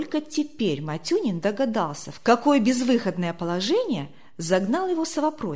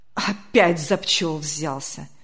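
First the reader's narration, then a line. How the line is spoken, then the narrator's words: Annoyed grumble. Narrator (Russian): с досадой проворчал председатель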